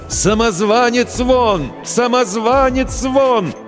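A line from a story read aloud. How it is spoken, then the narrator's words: Crowd shouting. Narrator (Russian): толпа кричала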